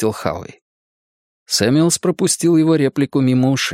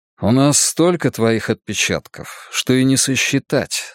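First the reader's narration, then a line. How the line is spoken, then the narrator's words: Plain. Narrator (Russian): сказал Ральф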